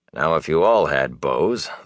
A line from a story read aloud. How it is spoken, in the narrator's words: said dryly